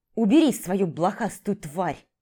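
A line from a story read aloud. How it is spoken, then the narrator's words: Vicious hiss. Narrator (Russian): прошипел злобно Ежи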